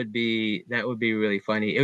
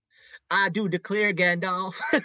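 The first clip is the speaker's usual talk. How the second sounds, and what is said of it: Put-on old Southern US accent. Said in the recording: “It would be like a Gone with the Wind accent ... that's my only southern phrase”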